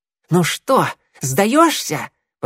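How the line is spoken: Hiss. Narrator (Russian): прошипел Огонек

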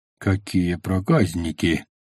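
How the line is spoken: Snorting reply. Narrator (Russian): Хмыкнул в ответ Пейн

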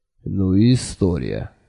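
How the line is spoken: Sigh. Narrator (Russian): вздохнул Джуфин

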